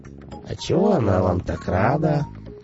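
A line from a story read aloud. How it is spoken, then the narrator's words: Sugary question. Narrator (Russian): сладеньким голосом осведомился Мегла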